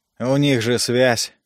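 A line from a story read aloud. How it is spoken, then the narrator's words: Grumble. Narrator (Russian): проворчал Джей Джей Эшвуд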